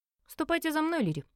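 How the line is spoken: Curt command. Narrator (Russian): отрывисто приказал Альфа

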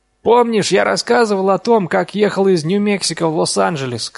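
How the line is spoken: Shouted. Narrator (Russian): крикнул Дин

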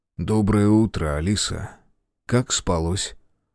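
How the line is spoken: Quiet. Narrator (Russian): тихо сказал

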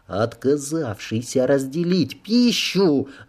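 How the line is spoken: Vicious hiss. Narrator (Russian): злобно прошипела Кло

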